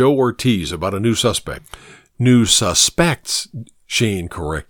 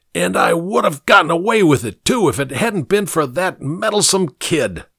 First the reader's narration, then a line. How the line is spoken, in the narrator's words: The fat man answered the shouts of reporters with a querulous voice